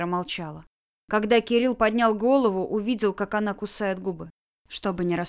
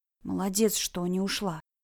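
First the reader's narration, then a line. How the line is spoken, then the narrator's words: Male whisper. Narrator (Russian): прошептал Кирилл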